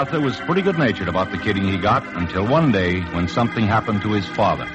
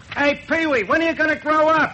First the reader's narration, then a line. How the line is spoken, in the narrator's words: somebody shout at him